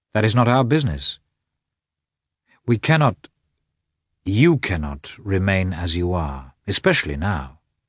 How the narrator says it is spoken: said Vronsky in his usual firm, calm tone

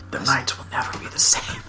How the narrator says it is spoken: whispers

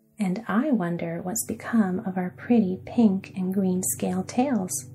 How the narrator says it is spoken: returned the girl, laughing with glee, for it seemed good to be herself again

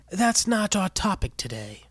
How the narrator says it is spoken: Benny Bird rasped

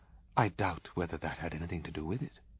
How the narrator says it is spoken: said coldly

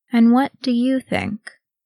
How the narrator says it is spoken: Thranduil said slowly

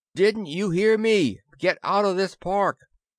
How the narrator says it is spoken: yelled

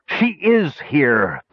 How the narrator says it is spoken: Pitrick cried aloud, uncaring of the surprised looks from the savants behind him

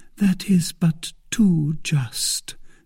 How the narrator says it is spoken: said she tenderly

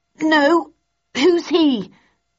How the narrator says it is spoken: I gasped as I heaved the heavy oak table

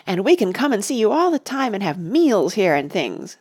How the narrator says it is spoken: said Oliver happily

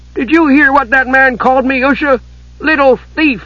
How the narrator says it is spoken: Tass was spluttering with indignation

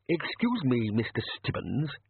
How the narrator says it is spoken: he quavered

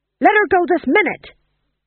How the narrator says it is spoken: He shouted

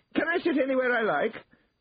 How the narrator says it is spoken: asked in a shrill voice

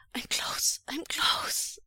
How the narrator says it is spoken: Wei Wuxian gasps

